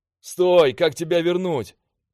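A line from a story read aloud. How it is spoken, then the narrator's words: Shouting. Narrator (Russian): крикнул я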